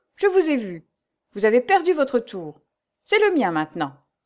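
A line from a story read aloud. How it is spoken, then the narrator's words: Curt tone. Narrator (French): dit Jo d'un ton bref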